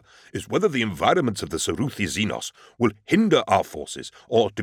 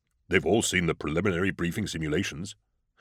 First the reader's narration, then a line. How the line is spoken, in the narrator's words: Britnoth murmured